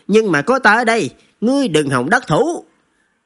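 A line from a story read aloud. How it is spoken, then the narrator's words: Laughing loudly. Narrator (Vietnamese): Hắn ... cười lớn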